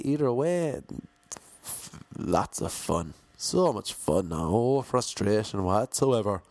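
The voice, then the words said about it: Lilting country Irish accent. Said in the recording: “I don't know why I'm talking like this either. I have all these different voices ... my fluctuating accent ... it goes into this lilty, lyrical, country Irish accent”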